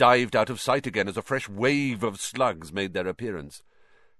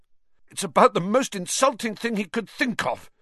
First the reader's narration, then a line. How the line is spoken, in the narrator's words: gasped Ron